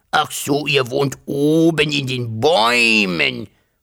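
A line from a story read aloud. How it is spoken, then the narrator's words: Hissing dragon. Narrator (German): fauchte der Drache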